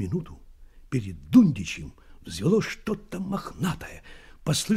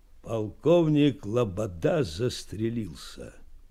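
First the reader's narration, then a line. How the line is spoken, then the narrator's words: Muffled voice. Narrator (Russian): глухо сказал чей-то голос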